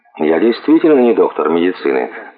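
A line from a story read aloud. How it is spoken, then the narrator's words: Dry reply. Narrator (Russian): ответил доктор Ботвинг сухо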